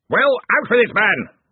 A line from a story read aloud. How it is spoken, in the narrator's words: roared Ridcully